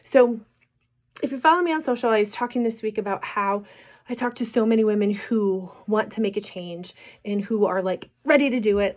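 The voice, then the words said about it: Voice not back to normal. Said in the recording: “my voice is still not back to normal from this cold”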